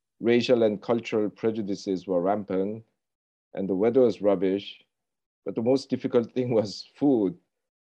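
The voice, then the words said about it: Thick non-native English accent. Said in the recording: “I still have a thick accent”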